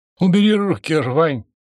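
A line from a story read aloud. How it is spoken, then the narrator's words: Strained unnaturally high voice. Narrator (Russian): неестественно высоким голосом выдавил из себя он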